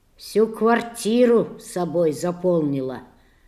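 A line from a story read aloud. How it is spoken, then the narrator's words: Father grumbling. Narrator (Russian): ворчал Борькин отец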